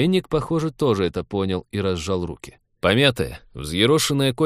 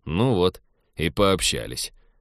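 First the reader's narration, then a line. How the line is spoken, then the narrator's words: Gloomy. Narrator (Russian): мрачно сказал Теодор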